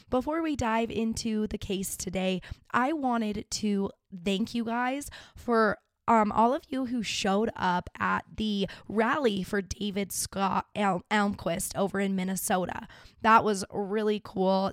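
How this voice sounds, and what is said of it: Rough, sick-sounding voice. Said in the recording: “Sorry about my voice. It is so horrific to listen to. I'm sure I've been very sick ... This is about as good as my voice is getting this week”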